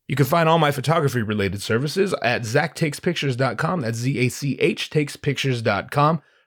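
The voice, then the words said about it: Sick-sounding voice. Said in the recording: “Forgive the voice. I'm at the end stages of a cold that I've been battling.”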